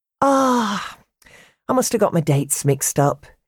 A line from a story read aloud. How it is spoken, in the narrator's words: sighed